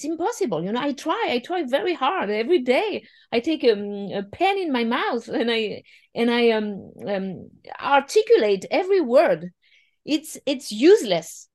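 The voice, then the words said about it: French accent. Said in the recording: “French is my first language ... I cannot lose my accent ... My accent is impossible to lose”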